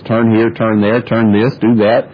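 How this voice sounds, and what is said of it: Pleasant GPS navigation voice. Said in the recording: “Garmin starts telling you in that very nice voice”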